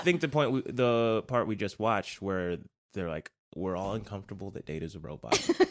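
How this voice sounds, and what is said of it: Subtle New Zealand accent, Americanized. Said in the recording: “it's subtle. It's like you're a New Zealander. ... You're a Kiwi who's moved to the States and has lived here since they were, I'm gonna say, 19. ... I've lived here for a long time. Accent.”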